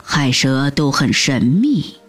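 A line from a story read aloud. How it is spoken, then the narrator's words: Hushed, low. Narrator (Chinese): 嘘，爸爸低声说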